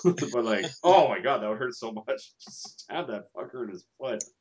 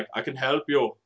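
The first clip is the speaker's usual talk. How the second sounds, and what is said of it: Arnold Schwarzenegger impression. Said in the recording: “me doing Arnold Schwarzenegger as Colossus”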